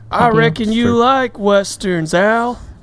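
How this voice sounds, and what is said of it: Imitates another person's voice. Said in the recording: “good impersonation”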